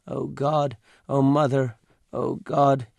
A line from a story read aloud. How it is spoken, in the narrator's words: moaned, not very loudly, in a sing-song voice